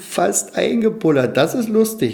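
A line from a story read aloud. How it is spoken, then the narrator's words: Laughing clownfish. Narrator (German): lachten die Clownsfische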